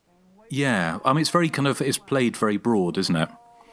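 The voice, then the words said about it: Non-American accent. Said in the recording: “I'm not a native to the United States. I'm sure you can tell from my accent”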